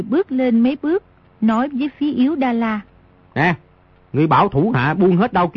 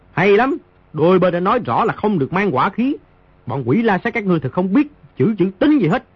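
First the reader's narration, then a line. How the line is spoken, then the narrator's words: Loud. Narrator (Vietnamese): Di Tiểu Bảo lớn tiếng nói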